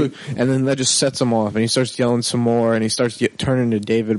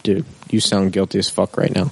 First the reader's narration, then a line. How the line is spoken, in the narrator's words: in the calmest voice possible, I'm just like